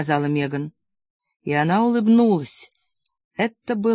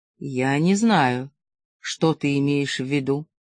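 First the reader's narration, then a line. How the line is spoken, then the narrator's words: Utterly lifeless voice. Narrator (Russian): Симингтон произнес совершенно неживым голосом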